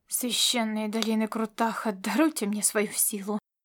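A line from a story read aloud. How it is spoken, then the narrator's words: Mutter. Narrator (Russian): пробормотал сорной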